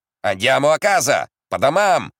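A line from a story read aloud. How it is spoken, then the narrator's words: Soldier shouting. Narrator (Russian): закричал солдат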